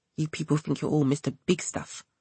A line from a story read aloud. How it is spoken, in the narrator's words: she muttered, half to herself